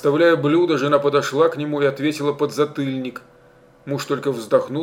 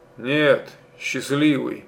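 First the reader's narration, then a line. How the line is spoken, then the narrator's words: Gloomy. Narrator (Russian): мрачно сказал Михамил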